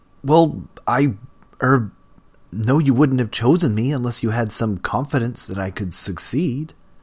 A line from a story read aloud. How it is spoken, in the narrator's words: Damien finally sputtered